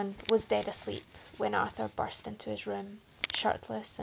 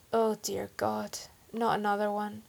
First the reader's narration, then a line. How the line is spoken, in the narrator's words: he moaned